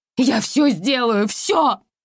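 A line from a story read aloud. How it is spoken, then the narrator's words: Desperate wailing. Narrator (Russian): вопила я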